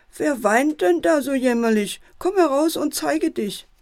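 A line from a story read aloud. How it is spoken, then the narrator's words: Loud calling. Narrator (German): ruft der Fuchs laut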